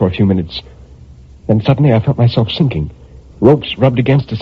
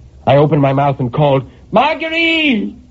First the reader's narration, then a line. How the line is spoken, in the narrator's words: I screamed, and my voice inside that box took on such a hollow sound